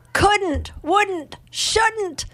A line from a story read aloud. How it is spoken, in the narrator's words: the pregnant woman yell